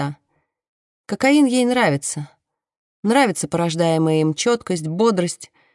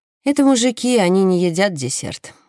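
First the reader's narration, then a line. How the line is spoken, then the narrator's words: Plain. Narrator (Russian): говорит Сара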